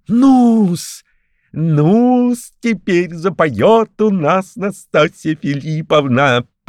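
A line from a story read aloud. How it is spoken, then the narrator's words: Gleeful giggling. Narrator (Russian): хихикал чиновник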